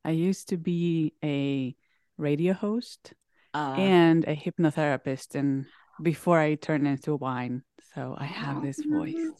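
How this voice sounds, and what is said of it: Sultry, smooth radio voice. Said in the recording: “you have a really good podcast voice. It's very sultry.”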